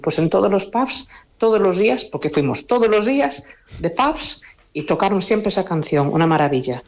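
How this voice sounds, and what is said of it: Galician Spanish accent. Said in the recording (Spanish): “con ese precioso acento gallego”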